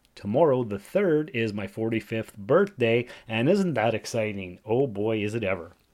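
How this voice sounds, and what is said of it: Sick voice from a cold. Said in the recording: “Why does my voice sound weird? Why am I sick? ... It's just a regular cold”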